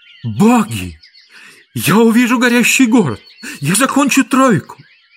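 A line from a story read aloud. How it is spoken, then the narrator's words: Exclaiming. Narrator (Russian): воскликнул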